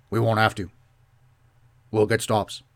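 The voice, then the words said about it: Poor Bill Belichick impression. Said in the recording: “That is the worst Bill Belichick impression ever.”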